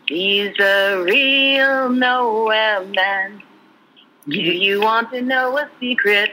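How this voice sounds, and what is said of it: Sung with slight Liverpool accent. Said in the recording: “a little Liverpoolian accent”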